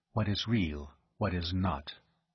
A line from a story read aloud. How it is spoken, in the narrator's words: he breathed